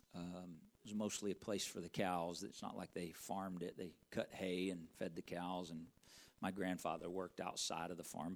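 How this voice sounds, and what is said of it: Slight Southern twang. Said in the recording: “If you hear a little bit of a twang in my voice, that's where that's from.”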